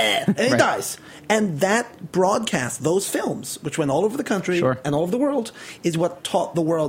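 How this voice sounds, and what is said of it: Usual voice. Nothing is said of it.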